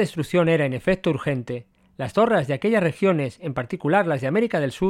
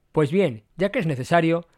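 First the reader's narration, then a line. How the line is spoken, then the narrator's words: Plain. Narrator (Spanish): respondió Gordon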